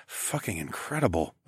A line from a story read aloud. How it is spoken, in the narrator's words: I muttered